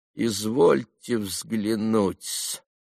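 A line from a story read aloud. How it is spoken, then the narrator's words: Quiet. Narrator (Russian): так же тихо произнес Смердяков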